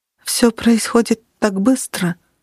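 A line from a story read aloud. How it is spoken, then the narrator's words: Almost whispered. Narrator (Russian): почти прошептала она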